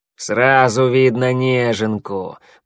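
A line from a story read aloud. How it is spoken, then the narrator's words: Growl. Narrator (Russian): прорычал коготь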